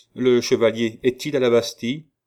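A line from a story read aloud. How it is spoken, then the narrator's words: Curt, decisive. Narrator (French): dit le régent d'un ton bref et comme un homme décidé à ne supporter sur ce point aucune observation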